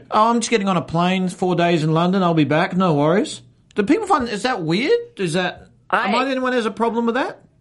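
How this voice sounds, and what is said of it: Speaks with a noticeable accent. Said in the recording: “I'm jealous of your accent ... my accent”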